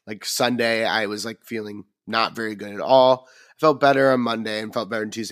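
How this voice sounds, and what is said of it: Tired, slightly strange voice from cold. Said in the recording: “if my voice sounds a little strange to people, stranger than usual. I'm getting over a little cold ... it did kind of take its toll on the old voice ... So the voice is a little tired today”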